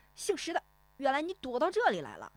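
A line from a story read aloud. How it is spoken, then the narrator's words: Loud, grinning. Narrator (Chinese): 那个买鱼的胖脸男人咧嘴大声说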